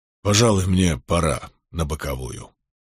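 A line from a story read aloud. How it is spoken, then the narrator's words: Grumbling. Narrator (Russian): проворчал Милфорд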